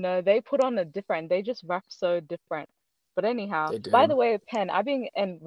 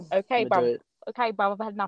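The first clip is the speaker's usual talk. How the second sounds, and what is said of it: Imitates a UK drill rapper accent. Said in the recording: “imitating how drill rappers sound, the ones that live in the UK, and I actually sound like a proper drill rapper ... You got the accent.”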